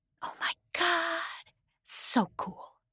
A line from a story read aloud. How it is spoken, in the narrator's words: she whispered back